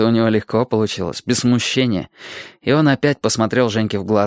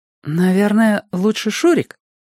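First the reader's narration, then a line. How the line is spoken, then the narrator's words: Uncertain question. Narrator (Russian): Она неуверенно спросила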